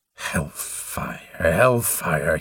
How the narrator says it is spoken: he moaned

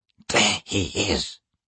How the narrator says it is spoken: he hissed

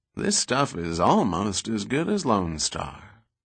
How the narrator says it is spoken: he said in his slow Texas drawl

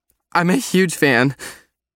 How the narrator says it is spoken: she squeaked

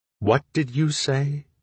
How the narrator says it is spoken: I asked as evenly as possible, swallowing my rage at her high-ass theory of my pain

